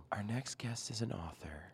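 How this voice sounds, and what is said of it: Public radio announcer voice. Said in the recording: “do the NPR voice”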